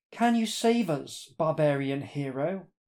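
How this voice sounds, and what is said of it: Imperial, regal queenly voice. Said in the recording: “in an imperial voice”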